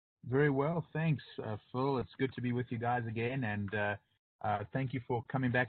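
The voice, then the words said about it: South African accent. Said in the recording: “has this accent that comes from South Africa”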